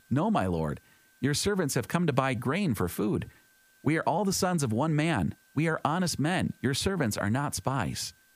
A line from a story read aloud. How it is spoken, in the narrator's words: But they exclaimed